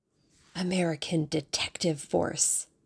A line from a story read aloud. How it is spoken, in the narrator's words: she hissed